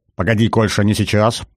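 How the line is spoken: Muttered. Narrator (Russian): буркнул Серышев, занимаясь наводкой

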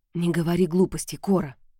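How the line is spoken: Whisper. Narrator (Russian): прошептал Раш

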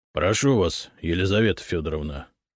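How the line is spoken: Plain. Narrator (Russian): сказал он

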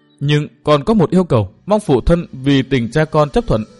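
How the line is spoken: Trembling voice. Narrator (Vietnamese): Bích Duyên Hồng giọng run run

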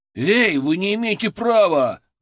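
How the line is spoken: Paramedic shouting. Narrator (Russian): крикнул фельдшер

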